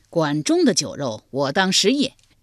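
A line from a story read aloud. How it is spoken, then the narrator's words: Cowherd laughing heartily. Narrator (Chinese): 牧牛人闻听宰相管仲赐酒，仰天大笑道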